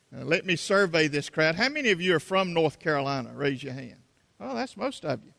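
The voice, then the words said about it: South Carolina Southern accent. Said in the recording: “my South Carolina accent”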